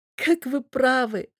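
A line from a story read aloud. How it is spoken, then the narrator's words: Sobbing woman. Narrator (Russian): всхлипывает она, сотрясаясь от рыданий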